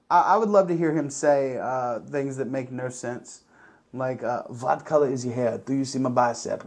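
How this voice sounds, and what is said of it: Usual voice. Nothing is said of it.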